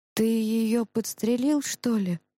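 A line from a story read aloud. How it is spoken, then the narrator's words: Breathless exhale. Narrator (Russian): выдохнул Иван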